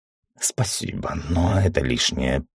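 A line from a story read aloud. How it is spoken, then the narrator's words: Mumbling. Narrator (Russian): промямлил стражник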